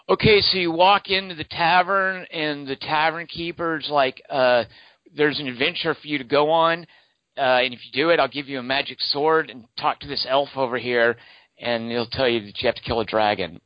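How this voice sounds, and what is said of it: Imitates a dungeon master. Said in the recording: “I'm just going to do an impression ... That was my impression of you or anyone as a dungeon master.”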